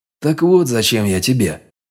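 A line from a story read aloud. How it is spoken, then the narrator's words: Disappointed exhale. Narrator (Russian): разочарованно выдохнул я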